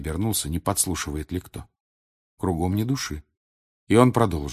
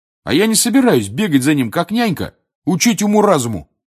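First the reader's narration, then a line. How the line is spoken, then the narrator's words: Loud shout. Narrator (Russian): крикнул Гарри, спугнув дремавших на дереве сов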